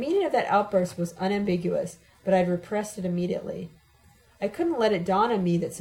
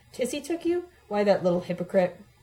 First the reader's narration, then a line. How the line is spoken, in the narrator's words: exclaimed